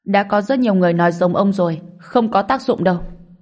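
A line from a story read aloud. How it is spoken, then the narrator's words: Young man, angry. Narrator (Vietnamese): Một người thanh niên đầu cua ở gần đó tức giận nói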